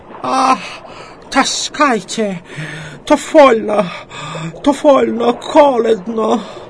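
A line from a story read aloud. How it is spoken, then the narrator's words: Hoarse wheeze, German speaker. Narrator (Russian): А немец хрипит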